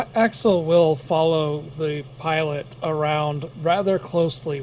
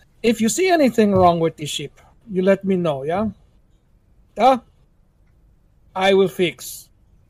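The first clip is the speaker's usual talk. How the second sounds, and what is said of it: Put-on foreign accent. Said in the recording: “I'm picking up the wrong accent... Nope, still doing it.”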